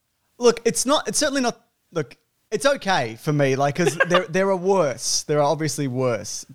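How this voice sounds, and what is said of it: Australian accent. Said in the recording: “as someone with an Aussie accent”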